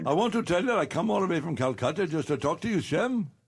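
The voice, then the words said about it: Put-on Indian accent. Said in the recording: “that sounded Indian ... That sounded really Indian.”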